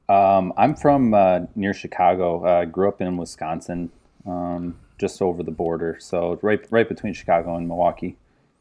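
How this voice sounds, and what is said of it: Upper Midwest American accent. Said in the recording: “I heard the accent. I'm like, it's got to be up there.”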